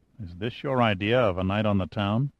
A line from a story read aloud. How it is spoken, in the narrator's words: Giordino murmured